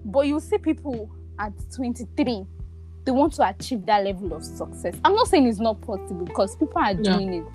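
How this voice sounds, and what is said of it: Lagos Nigerian accent. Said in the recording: “My accent is coming... I've lived in Lagos for so long. I'm practically a Lagosian.”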